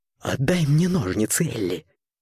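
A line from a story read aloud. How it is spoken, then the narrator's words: Near whisper. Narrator (Russian): почти прошептал он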